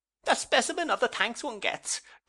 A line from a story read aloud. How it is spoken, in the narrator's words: cried Mrs